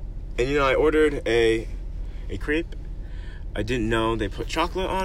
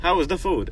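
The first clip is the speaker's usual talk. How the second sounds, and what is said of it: Bad put-on European accent. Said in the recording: “that's just my bad accent, I'm sorry. Every European accent I have has that accent.”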